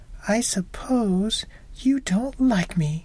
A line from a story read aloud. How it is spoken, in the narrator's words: sobbed the girl